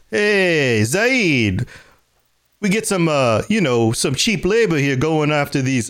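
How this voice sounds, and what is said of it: Mafia-style Brooklyn impression of Vito. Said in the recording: “my impression is terrible ... they're both from Brooklyn”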